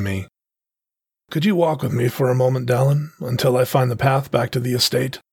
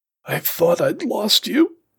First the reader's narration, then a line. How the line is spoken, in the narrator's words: he choked